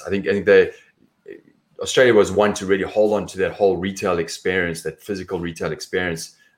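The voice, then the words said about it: South African accent. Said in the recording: “My accent is different. It's South African”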